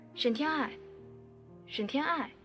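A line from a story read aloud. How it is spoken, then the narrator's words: Calling out. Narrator (Chinese): 有人叫我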